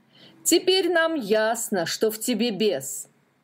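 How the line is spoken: Angry group shout. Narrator (Russian): гневно закричали они

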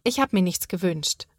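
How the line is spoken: Plain. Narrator (German): sagt Sophia

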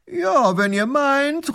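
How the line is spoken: Flattered call back. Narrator (German): ruft der Großherzog geschmeichelt zurück

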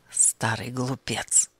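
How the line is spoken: Muttered. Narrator (Russian): пробормотал он

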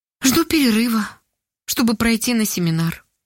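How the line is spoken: Sad. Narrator (Russian): грустно ответила Ольга

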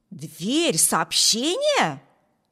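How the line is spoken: Exclaimed. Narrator (Russian): воскликнул Виберт

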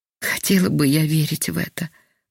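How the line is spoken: Sighing sick woman. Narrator (Russian): вздохнула больная

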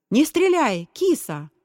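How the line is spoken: Shouted. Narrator (Russian): прокричал Борис

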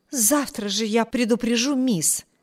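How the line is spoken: Exclamation. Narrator (Russian): воскликнула Энн

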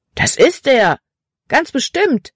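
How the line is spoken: Boy calling out. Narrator (German): rief ein anderer Junge

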